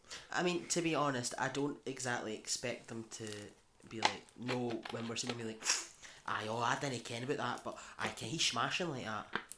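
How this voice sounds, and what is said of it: Scottish West Lothian accent. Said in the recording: “lovely West Lothian accent”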